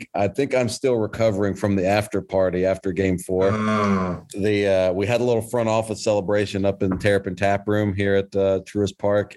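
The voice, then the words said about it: Tired-sounding voice. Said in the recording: “our voices sound a little... My voice is a little tired”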